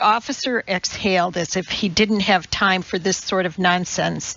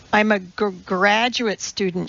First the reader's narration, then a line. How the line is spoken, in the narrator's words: stuttered, feeling like she might be sick